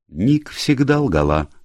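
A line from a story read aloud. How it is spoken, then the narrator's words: Calm. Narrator (Russian): спокойно сказал Фредерико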